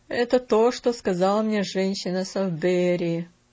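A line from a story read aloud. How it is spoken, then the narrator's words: Absent-minded mutter. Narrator (Russian): рассеянно пробормотал он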